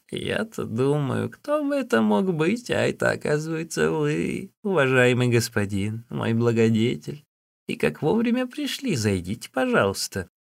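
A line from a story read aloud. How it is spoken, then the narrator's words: Old woman, laughing. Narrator (Russian): Старуха, смеясь, сказала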